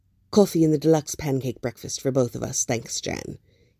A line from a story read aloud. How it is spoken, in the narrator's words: snaps